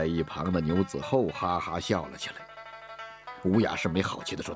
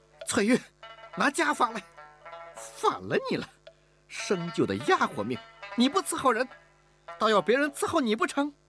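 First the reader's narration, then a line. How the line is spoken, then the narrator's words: Exasperated shout. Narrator (Chinese): 吴雅氏 忍无可忍地喊道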